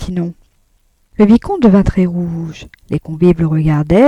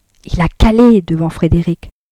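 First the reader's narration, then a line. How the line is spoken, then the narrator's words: Very quiet. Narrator (French): reprit tout bas Arnoux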